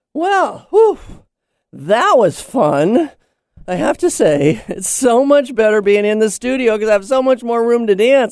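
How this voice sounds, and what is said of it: Slightly out of breath. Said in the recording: “I'm a little out of breath”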